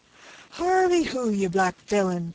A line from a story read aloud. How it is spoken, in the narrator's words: cried the impatient lieutenant